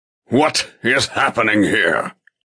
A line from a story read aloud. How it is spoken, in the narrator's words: He asks in a thundering voice